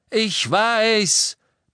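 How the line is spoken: Roaring shout. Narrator (German): brüllte Harry

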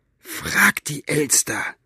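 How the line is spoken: Hissed angrily. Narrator (German): fauchte Buster

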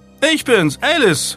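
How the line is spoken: Call. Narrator (German): rief sie

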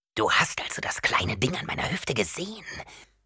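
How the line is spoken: Whispering. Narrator (German): flüsterte Veitrauter

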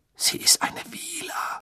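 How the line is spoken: Hoarse blurt. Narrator (German): stieß er mit heiserer Stimme hervor

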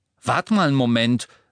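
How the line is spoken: Sharp. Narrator (German): sagte Ron scharf

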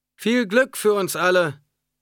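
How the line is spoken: Traditional ritual call. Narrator (German): rief Leto in der traditionellen Art der Fremen

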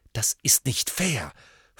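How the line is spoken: Hissing. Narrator (German): fauchte Hermine

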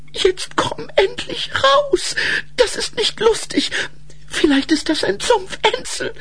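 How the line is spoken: Brother shrieking nonstop. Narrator (German): Ihr Bruder kreischte unaufhörlich

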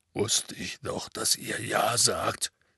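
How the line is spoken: Mumbled into handkerchief. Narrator (German): nuschelte Hagrid in sein Taschentuch

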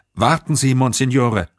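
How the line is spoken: Fearful call. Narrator (German): rief Chantron mit Furcht in der Stimme

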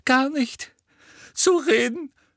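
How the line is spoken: Sobbing. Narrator (German): schluchzte sie

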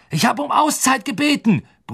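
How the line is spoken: Bellowed at team. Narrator (German): brüllte Woods seinem Team entgegen

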